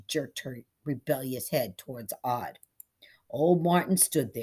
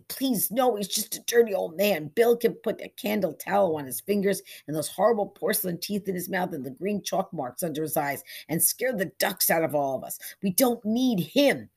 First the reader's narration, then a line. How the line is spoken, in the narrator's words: The girl pleaded